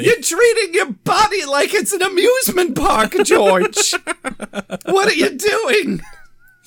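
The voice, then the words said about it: Imitates a sitcom mother's voice. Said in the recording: “George's mom from Seinfeld ... doing this voice”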